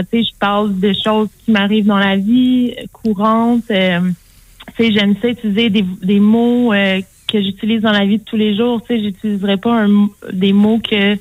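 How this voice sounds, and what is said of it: Québécois French accent. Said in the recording (French): “si on entend mon accent québécois, j'utilise pas un accent international”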